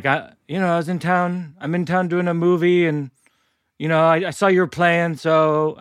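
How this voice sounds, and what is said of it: Robin Williams impression, Irish accent. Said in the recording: “he has an Irish accent for some reason in my impression... I thought that was a good,”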